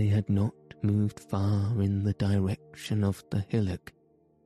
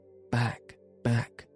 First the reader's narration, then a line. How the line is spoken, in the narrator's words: cried his lordship